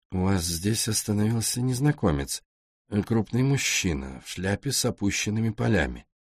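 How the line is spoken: Quiet question. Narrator (Russian): Роули тихо спросил у нее

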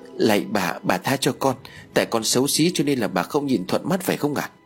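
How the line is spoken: Frightened tearful frantic pleading. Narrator (Vietnamese): Nguyệt sợ hãi, hai mắt ướt nhẹp nước mắt, miệng rối rít van xin

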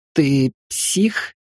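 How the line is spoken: Trembling question. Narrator (Russian): дрожащим голосом спросил Вася

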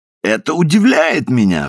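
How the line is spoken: Laughing exclamation. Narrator (Russian): вскричал, смеясь, Клиффорд

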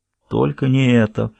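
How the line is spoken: Muttered. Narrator (Russian): пробормотал Сквайр

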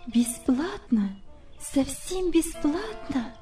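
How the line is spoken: Confused muttering. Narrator (Russian): пробормотала она, совсем сбитая с толку

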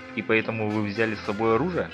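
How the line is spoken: Plain. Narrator (Russian): спросил

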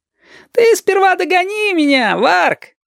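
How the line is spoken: Laughing. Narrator (Russian): Засмеялся на своей лошади и Женька

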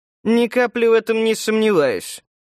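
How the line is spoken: Hmphing. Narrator (Russian): хмыкнул Антоний

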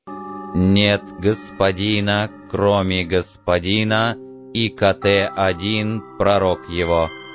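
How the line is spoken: Solemn metallic chorus. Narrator (Russian): 20 металлических голосов торжественно провозгласили

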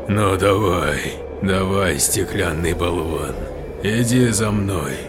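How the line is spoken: Gloating hiss, near fainting. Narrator (Russian): злорадно прошипел воркмейстер, стараясь не потерять сознание

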